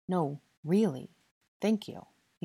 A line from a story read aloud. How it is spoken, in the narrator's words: he said earnestly